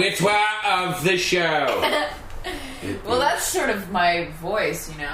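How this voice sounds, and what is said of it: Usual voice. Nothing is said of it.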